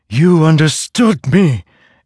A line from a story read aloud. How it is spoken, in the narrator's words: it cried